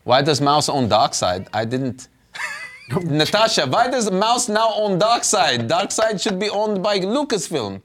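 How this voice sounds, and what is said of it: Put-on comedic accent. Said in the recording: “I don't know why I'm doing that accent.”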